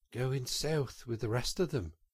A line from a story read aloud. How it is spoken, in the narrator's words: murmured the rat in dreamy monotone